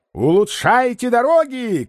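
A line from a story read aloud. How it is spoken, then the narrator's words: Farewell shout. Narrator (Russian): кричал он на прощание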